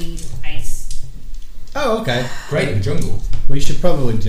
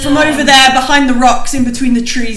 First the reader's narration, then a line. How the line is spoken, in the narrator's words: he shouts